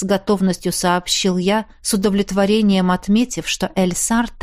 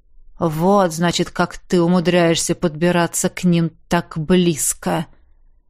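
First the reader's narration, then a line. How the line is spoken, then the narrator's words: Thoughtful drawl. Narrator (Russian): задумчиво протянул Хэнк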